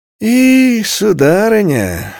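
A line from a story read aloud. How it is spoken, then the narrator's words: Sighing. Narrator (Russian): Дениза вздохнула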